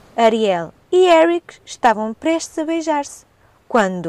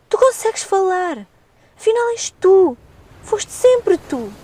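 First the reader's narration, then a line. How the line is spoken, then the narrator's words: Exclamation. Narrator (Portuguese): O príncipe exclamou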